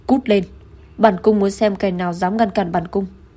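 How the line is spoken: Angry shouting. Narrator (Vietnamese): Đức Phi nổi giận hét lên

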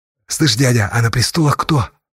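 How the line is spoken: Whispered question. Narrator (Russian): шепотом спросил Асташа

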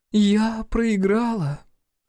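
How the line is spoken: Mock-sad groan. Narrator (Russian): с наигранной печалью в голосе простонала она

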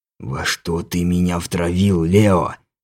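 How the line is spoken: Frightened angry hiss. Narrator (Russian): зашипел Рамон испуганно и гневно

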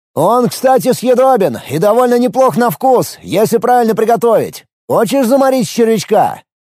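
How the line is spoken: Shouted. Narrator (Russian): Тут же закричал он

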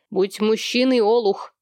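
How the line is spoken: Harsh bark. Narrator (Russian): рявкнул Сэм Солу

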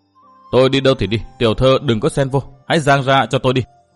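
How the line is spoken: Cold reply. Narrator (Vietnamese): Nguyên Bình trừng mắt lạnh lùng đáp

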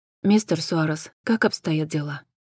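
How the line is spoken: Quiet question. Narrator (Russian): тихо спросила Джен

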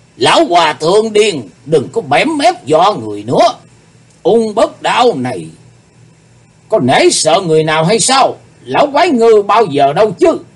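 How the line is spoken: Demonic roaring voice. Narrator (Vietnamese): Ung Bất Đan thấy thế, dục lắc lư chiếc đầu to lớn, nói với giọng như quỷ rống

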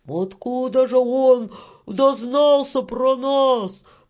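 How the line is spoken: Shouted. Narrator (Russian): прокричал мужичок

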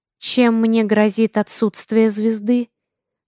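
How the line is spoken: Calm. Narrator (Russian): спокойно уточнила я

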